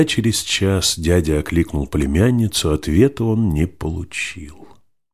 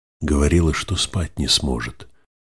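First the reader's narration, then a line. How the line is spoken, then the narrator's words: Sly smiling whisper. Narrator (Russian): шепотом, лукаво улыбаясь, сказал лорду Тэ-секретарь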